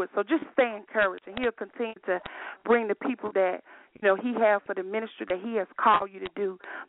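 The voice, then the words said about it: Strong country accent. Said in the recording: “I have this very country accent”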